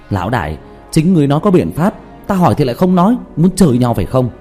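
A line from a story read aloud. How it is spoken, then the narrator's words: Angry near-shout. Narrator (Vietnamese): Diệp Thiếu Dương thiếu chút nữa thì tức khí la lên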